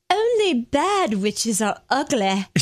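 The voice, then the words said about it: Failed fake transatlantic accent, Glinda. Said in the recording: “Only it's not Southern accent. I was trying to do that fake transatlantic accent. I couldn't do it.”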